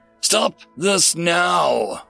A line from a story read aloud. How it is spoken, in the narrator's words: roared the king eminent